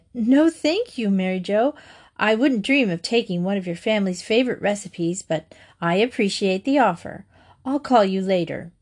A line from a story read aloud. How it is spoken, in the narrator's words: Pemberton could hardly keep from laughing as she said